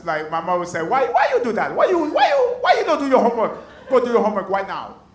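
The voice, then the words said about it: Haitian accent imitating mother. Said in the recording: “with the Haitian accent, it sounds nuts”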